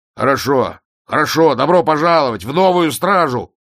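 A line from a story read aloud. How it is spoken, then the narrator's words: Barked. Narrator (Russian): рявкнул Ваймс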